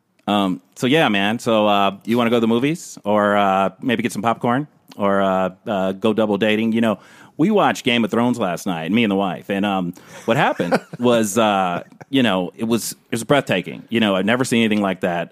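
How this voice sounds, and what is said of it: Put-on white guy voice. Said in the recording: “do your white guy voice”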